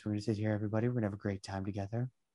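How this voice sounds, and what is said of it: Public radio announcer voice. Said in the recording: “the classic NPR voice”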